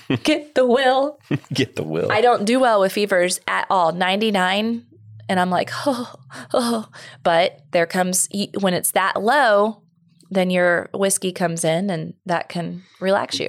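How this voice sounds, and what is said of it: Nasal, congested voice. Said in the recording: “I sound a little nasally,”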